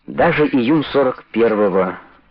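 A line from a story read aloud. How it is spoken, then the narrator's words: Calm agreement. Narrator (Russian): спокойно согласился Бекетов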